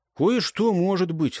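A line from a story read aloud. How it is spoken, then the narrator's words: Sighing. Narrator (Russian): вздохнул Гейб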